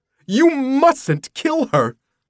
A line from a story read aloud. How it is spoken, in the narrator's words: he cried